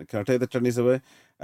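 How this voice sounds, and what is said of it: Put-on accent. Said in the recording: “I wish I hadn't done that accent.”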